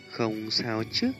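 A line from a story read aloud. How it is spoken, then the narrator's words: Heartbroken, concerned. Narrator (Vietnamese): Huân Nhi không khỏi đau lòng, nói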